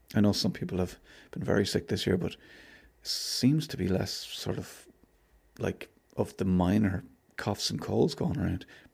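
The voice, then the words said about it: Slightly hoarse, throaty voice. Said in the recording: “I've got a frog in my throat.”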